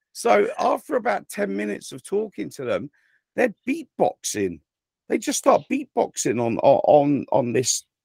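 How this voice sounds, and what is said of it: English accent. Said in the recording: “yes, I am from England ... my English accent”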